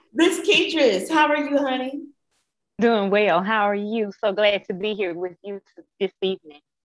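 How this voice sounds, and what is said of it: Southern American accent. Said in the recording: “I love your accent. I love it ... if I could just have a little southern swing”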